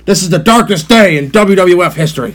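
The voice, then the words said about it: Jim Ross impression. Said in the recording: “didn't do a Jim Ross voice”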